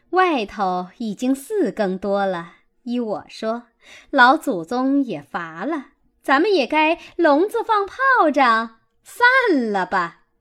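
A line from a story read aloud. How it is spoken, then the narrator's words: Laughing. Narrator (Chinese): 凤姐儿笑道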